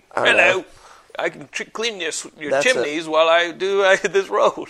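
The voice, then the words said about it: Put-on British accent. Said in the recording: “you should have used a British accent”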